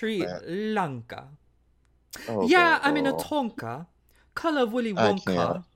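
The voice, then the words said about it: Put-on accent while rapping. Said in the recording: “not the accent”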